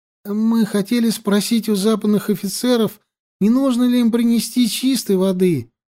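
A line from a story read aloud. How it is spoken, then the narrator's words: Convincing whine. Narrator (Russian): правдоподобно захныкал Живан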